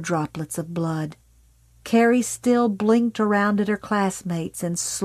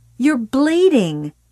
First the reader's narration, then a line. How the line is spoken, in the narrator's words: Sue yelled suddenly, furiously